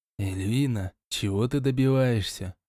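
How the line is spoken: Whispered question. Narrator (Russian): Шепотом поинтересовался я

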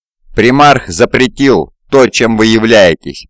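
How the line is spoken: Growled. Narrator (Russian): прорычал Кри

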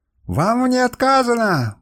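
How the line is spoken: Furious spluttering shout. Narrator (Russian): брызгая слюной с багровым от ярости лицом, закричал Луриус

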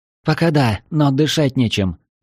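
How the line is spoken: Hoarse rasp, then coughing. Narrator (Russian): прохрипела Марина и закашлялась

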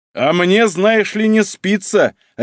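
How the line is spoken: Sharp bark. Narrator (Russian): рявкнул Касаткин

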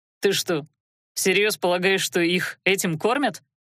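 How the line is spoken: Skeptical snort. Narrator (Russian): хмыкнул Адар

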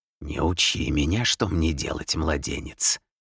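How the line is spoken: Hissed. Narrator (Russian): прошипел

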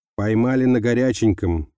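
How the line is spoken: Exclamation. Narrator (Russian): воскликнул Козлов

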